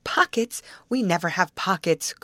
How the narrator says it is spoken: cried Betty

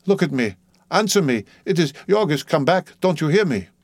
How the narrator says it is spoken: frantically, calling

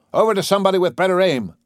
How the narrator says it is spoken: the commander shouted

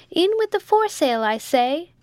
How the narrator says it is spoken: shouted

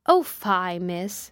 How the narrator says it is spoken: said Bessie

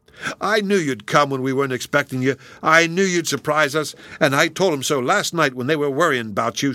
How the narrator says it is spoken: shouted the boy, dancing about them

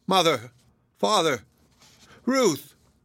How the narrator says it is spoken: He only moaned and called out incoherently

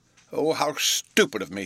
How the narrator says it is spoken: cried

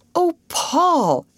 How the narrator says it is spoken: exclaimed Ruth

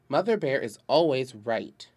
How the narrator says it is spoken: answered Father sternly

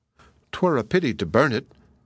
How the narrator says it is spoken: cried the princess, sighing

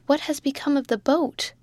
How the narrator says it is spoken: suddenly cried the mate

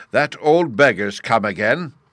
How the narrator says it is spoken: Uggug shouting

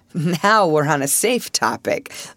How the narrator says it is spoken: laughed Paul

